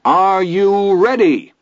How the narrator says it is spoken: His Honor's voice rolled triumphantly through the great day PA

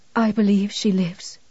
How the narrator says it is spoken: whispered strengthlessly

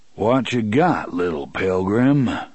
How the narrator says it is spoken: the voice inquired in a leisurely drawl

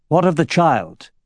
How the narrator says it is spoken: Orin asked harshly

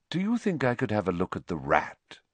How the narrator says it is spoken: he said, evenly

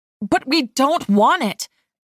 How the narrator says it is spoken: I spluttered, trying and failing to keep my cool

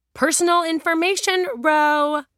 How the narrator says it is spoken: Julia roared

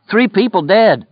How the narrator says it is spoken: Lloyd cried

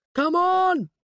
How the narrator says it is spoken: he shouted as they ran

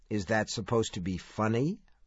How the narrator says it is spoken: Mike asked a trifle coldly

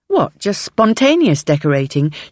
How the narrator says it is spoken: She says with a dry laugh

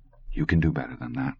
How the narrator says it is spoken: Tod said softly

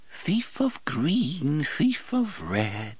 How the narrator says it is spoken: she sang in a lilting, funny voice

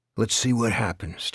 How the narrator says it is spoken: Terry said

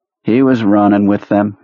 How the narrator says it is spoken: McAvoy said in a bored voice

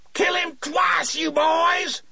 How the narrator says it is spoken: Marjorie Dettericck suddenly screamed

